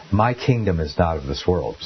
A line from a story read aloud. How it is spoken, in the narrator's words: says Jesus